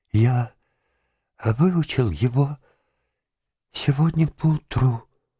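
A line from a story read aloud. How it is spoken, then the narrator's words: Trembling voice. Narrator (Russian): дрожащим голосом сказал он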